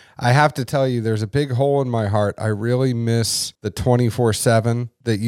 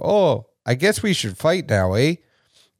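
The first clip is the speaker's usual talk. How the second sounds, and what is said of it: Bad put-on Canadian accent. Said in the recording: “forgive me for my terrible Canadian accent right now”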